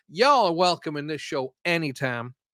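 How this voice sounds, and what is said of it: Put-on Texas accent. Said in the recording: “That was my Texas accent. I'm sorry if it sounds rubbish.”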